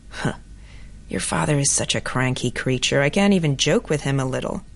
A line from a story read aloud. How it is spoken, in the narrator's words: In a quiet and scornful voice, she said